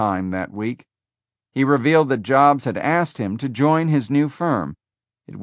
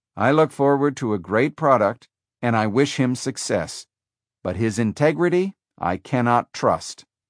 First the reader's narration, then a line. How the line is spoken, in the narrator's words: Wozniak said